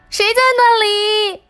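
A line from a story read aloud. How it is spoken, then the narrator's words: Squeak-like shriek. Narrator (Chinese): 老鼠发出了一声尖叫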